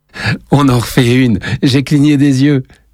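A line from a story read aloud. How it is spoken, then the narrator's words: Exclaiming. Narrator (French): s'exclame Lenny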